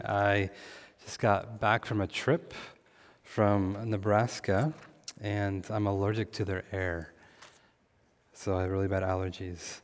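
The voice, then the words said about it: Hoarse voice. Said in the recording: “my voice is a little hoarse this morning”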